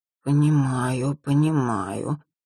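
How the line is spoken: Slow, awed drawl. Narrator (Russian): медленно протянула я, словно пораженная его талантами

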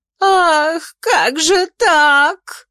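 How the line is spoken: Sobbing. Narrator (Russian): рыдала Офелия

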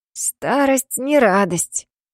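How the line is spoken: Hoarse wheeze. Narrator (Russian): прохрипела Аяка

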